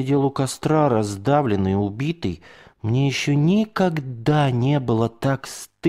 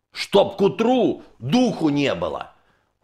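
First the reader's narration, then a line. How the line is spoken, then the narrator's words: Furious bark from darkness. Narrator (Russian): Уже с ярой из темноты гаркнул он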